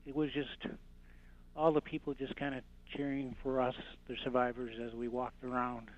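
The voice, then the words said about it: Choked-up, emotional voice. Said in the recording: “I'm just kind of getting a little choked up”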